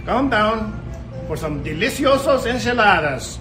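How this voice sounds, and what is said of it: Exaggerated mock Mexican Spanish accent. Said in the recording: “imitating a Spanish individual, a Mexican. ... It's a funny accent. ... It's a funny Spanish accent.”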